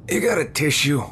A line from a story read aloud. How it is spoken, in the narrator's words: He groaned